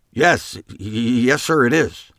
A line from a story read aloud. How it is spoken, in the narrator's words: Jake sputtered